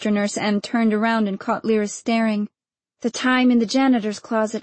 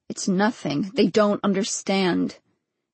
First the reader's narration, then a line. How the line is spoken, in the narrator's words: Saperstein in the courtyard, speaking in a low voice